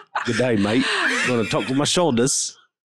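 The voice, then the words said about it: Bad put-on Australian accent. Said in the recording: “That was awful... How did you go from Australian accent to like England?”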